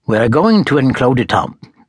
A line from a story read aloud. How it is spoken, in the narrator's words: friar said sharply